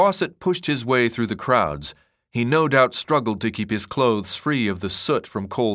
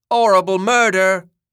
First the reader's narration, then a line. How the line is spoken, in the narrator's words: Newspaper boys cried